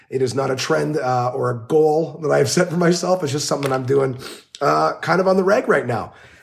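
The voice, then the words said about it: Sick-sounding voice. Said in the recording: “I don't know if you can tell by my voice. I am not. I am sick”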